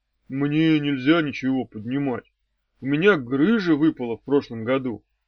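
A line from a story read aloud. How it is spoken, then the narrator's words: Glum statement. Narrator (Russian): сообщил уныло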